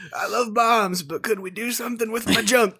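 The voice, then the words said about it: Bad Bill Clinton impression. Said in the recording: “Terrible Bill Clinton impersonation. ... That was really bad.”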